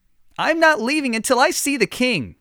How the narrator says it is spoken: the woman shouted

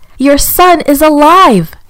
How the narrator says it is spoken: shouted

